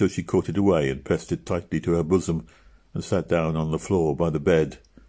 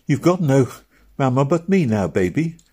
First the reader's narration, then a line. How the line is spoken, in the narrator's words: cried little Meg